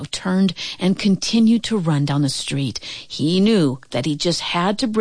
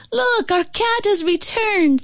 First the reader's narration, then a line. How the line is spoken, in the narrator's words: the young girl cried out